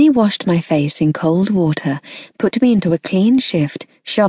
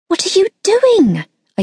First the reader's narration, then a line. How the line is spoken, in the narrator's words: yelped